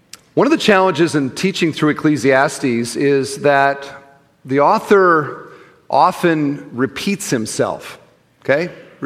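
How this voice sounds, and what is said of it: American Midwestern accent. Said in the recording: “back to the old Midwestern accent. So I hope you don't mind. It's as good as I can do.”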